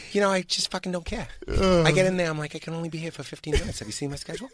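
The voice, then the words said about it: Mark Wahlberg impression. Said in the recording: “Why'd you leave the Super Bowl, Marky Mark?”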